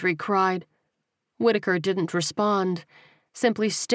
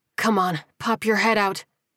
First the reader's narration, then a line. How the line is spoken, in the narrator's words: she muttered to herself